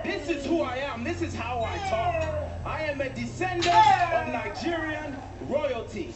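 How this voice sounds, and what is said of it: Nigerian accent. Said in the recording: “the new Apollo Crews with the Nigerian accent”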